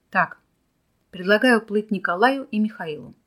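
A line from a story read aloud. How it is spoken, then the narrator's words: Plain. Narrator (Russian): сказал Борис Яковлевич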